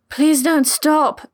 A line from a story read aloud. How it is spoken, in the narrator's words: Vid all but begged